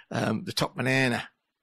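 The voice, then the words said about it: Attempted Australian accent. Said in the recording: “That's my best Australian accent.”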